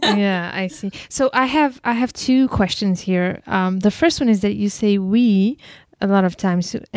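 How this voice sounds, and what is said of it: Non-native English accent. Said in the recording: “I'm sorry if my accent does not allow to make the difference.”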